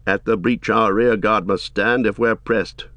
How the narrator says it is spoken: said Aemer

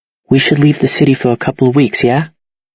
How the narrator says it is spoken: She tries to keep her voice calm, but the fear is there

